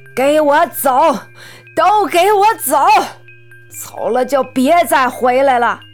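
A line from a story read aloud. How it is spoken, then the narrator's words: Grief-stricken furious roar. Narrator (Chinese): 四婆悲从心来，一拍桌子怒吼道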